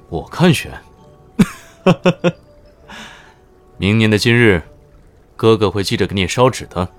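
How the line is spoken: Laughing. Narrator (Chinese): 乔天涯哈哈笑

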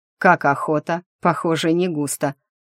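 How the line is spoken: Big man's coarse laugh. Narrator (Russian): грубо рассмеялся здоровенный волосатый детина

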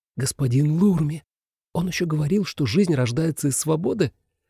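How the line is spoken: Excited whisper. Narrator (Russian): Селена взволнованно прошептала

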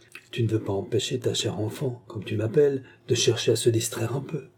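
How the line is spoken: Coaxing, caressing tone. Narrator (French): reprit Jeanne d'un ton caressant

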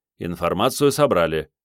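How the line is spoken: Sharp. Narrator (Russian): резко сказал Андрей

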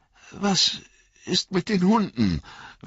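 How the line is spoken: Fearful question. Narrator (German): fragte Frodo ängstlich

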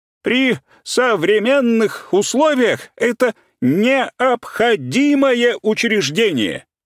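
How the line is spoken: Shouting. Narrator (Russian): уже кричал Подгаевский

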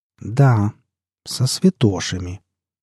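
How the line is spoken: Very slow, deliberate. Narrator (Russian): Лоя произнесла эти слова медленно, очень медленно, как будто боялась, что я могу не понять смысла сказанного

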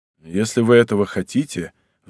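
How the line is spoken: Sighing again. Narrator (Russian): вздохнул он еще раз

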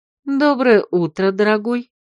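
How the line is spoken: Purring with pleasure. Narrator (Russian): Промурлыкала с наслаждением

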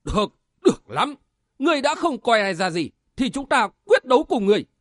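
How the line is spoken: Angry loud shout. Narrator (Vietnamese): Lãnh Trúc Song Sát giận dữ quát lớn

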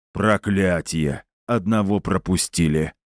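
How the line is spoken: Displeased low boom. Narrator (Russian): недовольно прогудел Гундахар

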